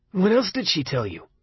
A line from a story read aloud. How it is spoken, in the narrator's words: Arnie asked, sharply